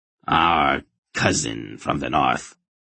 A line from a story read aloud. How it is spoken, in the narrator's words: Tholmurgos greeted him coldly